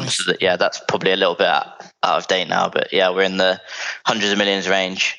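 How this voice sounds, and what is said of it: London English accent. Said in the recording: “From your accent, you're a Londoner.”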